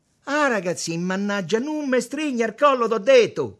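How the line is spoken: Shouted. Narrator (Italian): gridò Tommaso

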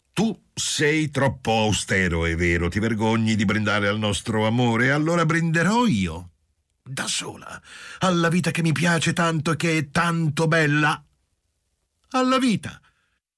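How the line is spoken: Shouted. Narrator (Italian): gridò

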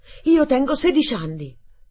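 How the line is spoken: Exclaimed. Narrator (Italian): esclamai

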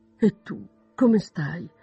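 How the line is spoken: Exclaiming. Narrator (Italian): esclamò Elizabeth

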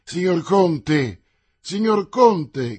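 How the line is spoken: Young voice shouting. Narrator (Italian): gridò una voce giovanile

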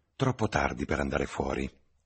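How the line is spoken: Relieved. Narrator (Italian): osservò la signorina Alan in tono di sollievo

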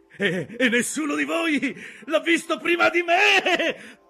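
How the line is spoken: Shouted. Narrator (Italian): gridò Aqab

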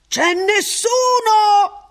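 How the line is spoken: Chirpy, almost chattering shout. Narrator (Italian): Ransom gridò, stavolta quasi garrulo

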